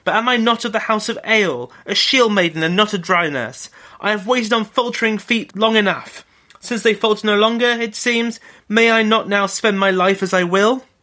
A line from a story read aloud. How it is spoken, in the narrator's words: cried